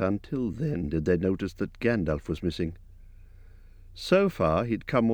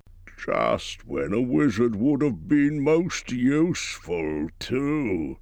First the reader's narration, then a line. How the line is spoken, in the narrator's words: groaned Dori and Nori